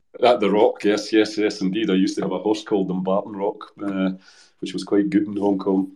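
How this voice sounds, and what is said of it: Speaks with a noticeable accent. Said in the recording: “my accent, which sometimes gets people”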